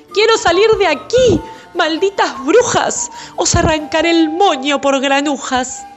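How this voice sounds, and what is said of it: Shouting angrily, yelling hoarsely. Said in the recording (Spanish): “llora y grita, golpea la pared, se desgañita... ¿Por qué gritas así?”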